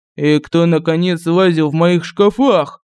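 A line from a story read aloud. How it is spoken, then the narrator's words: Growled. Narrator (Russian): зарычал князь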